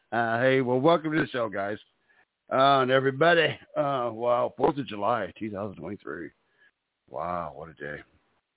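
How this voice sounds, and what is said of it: Strained, failing voice. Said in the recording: “my voice is blowing on me. I'm losing it.”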